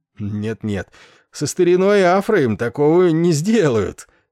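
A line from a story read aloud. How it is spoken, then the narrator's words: Short laugh. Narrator (Russian): он коротко рассмеялся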